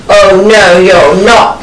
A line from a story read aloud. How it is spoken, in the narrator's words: roared the troll